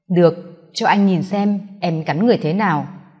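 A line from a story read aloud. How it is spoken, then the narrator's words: Husky voice. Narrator (Vietnamese): giọng khàn khàn nói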